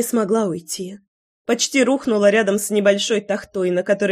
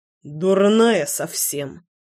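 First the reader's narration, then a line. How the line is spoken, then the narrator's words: Tired pained grumble. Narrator (Russian): Устало проворчал Славик, удерживая ладонью рану на плече, из которой сочилась кровь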